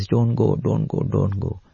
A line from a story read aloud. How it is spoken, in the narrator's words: this Latvian poet in her dream had already developed so much love for Bhagwan that she now cries